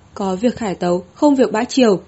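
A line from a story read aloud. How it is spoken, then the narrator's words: Loud announcing voice. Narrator (Vietnamese): lão thái giám tiến lên trước một bước, cao giọng nói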